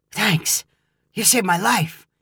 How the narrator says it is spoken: whispered back

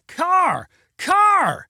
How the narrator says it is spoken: screamed Neil

